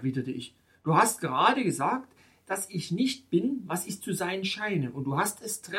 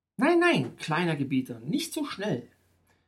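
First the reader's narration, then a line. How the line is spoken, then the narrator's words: Plain. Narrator (German): antwortete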